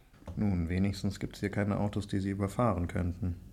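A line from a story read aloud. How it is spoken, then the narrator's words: Murmured. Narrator (German): murmelte Viktor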